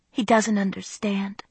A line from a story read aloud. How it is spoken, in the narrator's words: I whispered